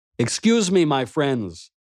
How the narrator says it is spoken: I called out to them

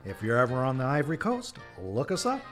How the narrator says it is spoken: he chuckled

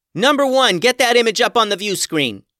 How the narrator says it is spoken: yelled Maxx

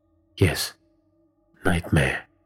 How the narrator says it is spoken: Prakash whispered as he scanned the room in fear

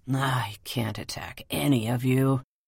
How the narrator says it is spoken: said the leopard with a snarl

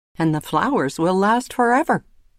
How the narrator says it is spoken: her mother had said happily

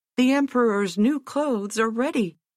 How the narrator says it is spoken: cried out at last

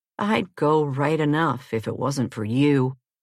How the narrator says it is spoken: George answered gloomily

